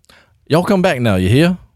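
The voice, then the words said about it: Put-on Texan southern accent. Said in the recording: “I apparently can't do a Texan accent. I can do other southern accents. The only way that I can do a Texan accent is if I like go full into like the Foghorn Leghorn style”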